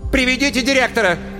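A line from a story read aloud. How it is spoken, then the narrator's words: Shout. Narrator (Russian): крикнула Светлана Семеновна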